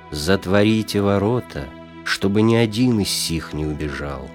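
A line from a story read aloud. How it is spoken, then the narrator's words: Stern menacing. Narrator (Russian): Грозно и строго сказал он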